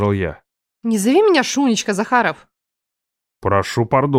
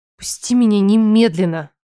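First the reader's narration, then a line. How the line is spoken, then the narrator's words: Hoarse demand. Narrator (Russian): хрипло потребовала она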